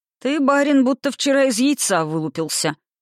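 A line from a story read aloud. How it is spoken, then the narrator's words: Disapproving grumble. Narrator (Russian): проворчала она неодобрительно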